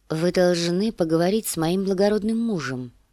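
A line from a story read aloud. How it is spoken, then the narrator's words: Plain. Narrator (Russian): сказала Дэнни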